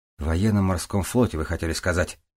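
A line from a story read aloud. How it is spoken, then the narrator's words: Correcting. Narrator (Russian): поправлял он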